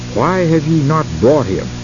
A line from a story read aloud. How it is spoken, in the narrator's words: They were angrily questioned